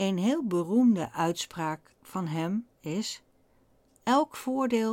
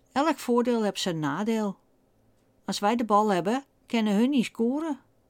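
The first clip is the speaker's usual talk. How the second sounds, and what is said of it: Imitated typical Amsterdam accent. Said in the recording (Dutch): “Eigenlijk moet ik het met zijn typische Amsterdamse accent zeggen.”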